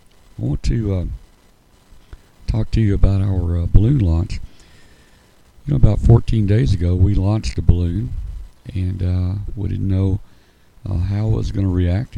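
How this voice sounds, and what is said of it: Voice not fully recovered. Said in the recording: “my voice is still improving. It's not totally back yet”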